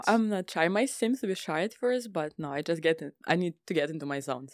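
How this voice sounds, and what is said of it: Speaks with a noticeable accent. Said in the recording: “she has an amazing accent ... I love the accent ... see what I'm talking about, that accent?”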